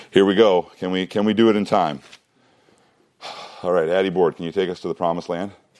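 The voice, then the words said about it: Out of breath. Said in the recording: “I'm out of breath. I need to breathe for a little while.”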